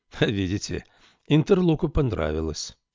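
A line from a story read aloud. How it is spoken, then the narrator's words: Cheerful speech. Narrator (Russian): весело сказал он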